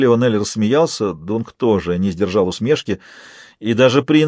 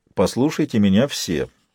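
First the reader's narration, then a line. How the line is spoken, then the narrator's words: Quiet. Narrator (Russian): тихо сказал Бейлор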